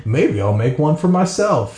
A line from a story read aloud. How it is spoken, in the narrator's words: she said